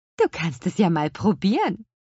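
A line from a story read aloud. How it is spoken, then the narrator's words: Laughing. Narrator (German): lachte Petronella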